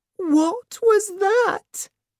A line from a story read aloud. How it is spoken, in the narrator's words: Olivia gasped